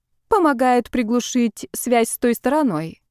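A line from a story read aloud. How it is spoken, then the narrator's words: Reluctant, seemingly calm. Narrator (Russian): нехотя, но вроде бы спокойно ответила Ольга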